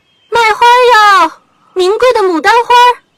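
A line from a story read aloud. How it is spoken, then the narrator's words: Clear melodious cuckoo-like. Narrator (Chinese): 声音似布谷鸟鸣叫，清脆悦耳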